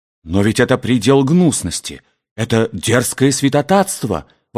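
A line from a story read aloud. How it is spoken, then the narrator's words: Indignant exclamation. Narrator (Russian): воскликнул Мортон, не сдержав своего возмущения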